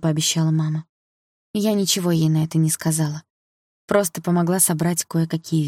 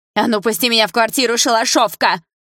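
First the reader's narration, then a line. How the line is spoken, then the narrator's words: Screamed with hatred. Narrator (Russian): С ненавистью орала Фаина Ивановна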